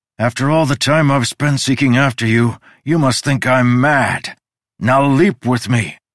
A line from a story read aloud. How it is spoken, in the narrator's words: he shouted